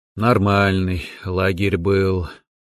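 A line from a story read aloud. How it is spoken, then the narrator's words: Coach's sigh. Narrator (Russian): вздохнул тренер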